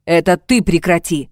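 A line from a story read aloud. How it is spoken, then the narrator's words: Sharp bark. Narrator (Russian): рявкнул Владимир Павлович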